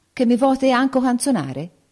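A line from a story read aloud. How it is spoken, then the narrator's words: Exclaimed. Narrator (Italian): il figliolo del re esclamò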